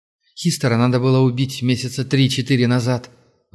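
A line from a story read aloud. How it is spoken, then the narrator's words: Sigh. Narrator (Russian): вздохнул Аргел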